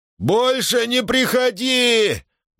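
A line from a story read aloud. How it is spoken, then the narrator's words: Loud echoing shout. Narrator (Russian): громко крикнул он в звенящий склеп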